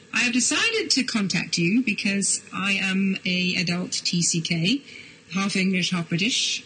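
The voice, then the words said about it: Accent more British than American. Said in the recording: “my accent is probably more British than American”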